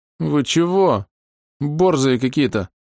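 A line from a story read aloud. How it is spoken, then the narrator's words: Sobbing, bloody runny nose. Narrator (Russian): всхлипнул он, утирая кровь с соплями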